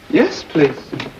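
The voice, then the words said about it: Put-on Japanese accent. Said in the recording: “Would you rather that I spoke ordinary English ... the accent lent a certain dignity ... this Japanese lingo is an act”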